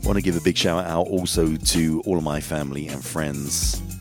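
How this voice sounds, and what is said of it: Groggy voice from a cold. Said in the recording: “I do have a little bit of a cold, so that's why my voice may sound a little bit groggy”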